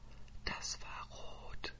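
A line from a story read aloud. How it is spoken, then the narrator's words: Whisper. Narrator (German): flüstert sie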